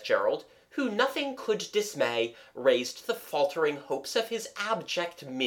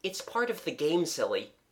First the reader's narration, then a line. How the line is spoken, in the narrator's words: explained Gerald kindly